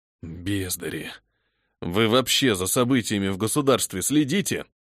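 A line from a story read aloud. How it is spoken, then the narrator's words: Grumbling. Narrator (Russian): Продолжал ворчать капитан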